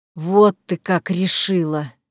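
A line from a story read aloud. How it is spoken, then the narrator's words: Drawl over phone. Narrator (Russian): протянул Игорь в трубку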